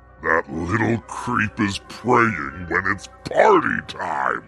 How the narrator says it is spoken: The devil growling to himself

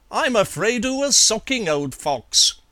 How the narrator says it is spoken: would exclaim

